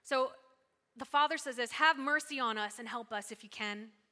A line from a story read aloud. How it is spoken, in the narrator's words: exclaimed the father